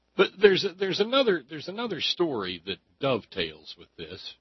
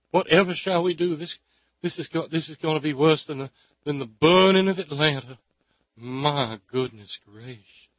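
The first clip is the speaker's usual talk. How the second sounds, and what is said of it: Southern belle voice, Aunt Pittypat impression. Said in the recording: “best graham cracker impression ... I was really going more for Aunt Pity Pat from Gone with the Wind”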